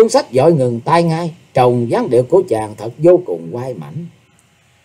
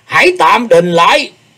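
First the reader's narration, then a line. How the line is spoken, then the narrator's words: Hoarse, loud voice. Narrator (Vietnamese): Tử Vong Thiền Chủ, với giọng khàn khàn y lớn tiếng nói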